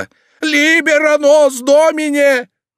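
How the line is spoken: Yelling at full voice. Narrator (Russian): он заорал во все горло

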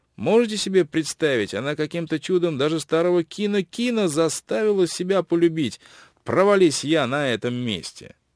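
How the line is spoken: Quiet gurgling laugh. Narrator (Russian): засмеялся тихим смешком, как будто в горле у него что-то заклокотало

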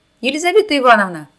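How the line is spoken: Shouted. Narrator (Russian): крикнула Лиза Кумачева

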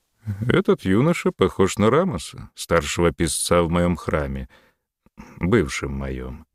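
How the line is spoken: Corrected himself, feigned indifference. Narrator (Russian): поправился Рахотеп нарочито безразличным голосом

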